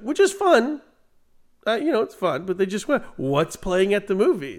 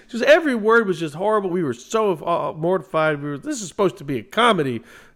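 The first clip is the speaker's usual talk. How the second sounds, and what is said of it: Imitates another person's voice. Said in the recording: “this is not a good impression of my mom.”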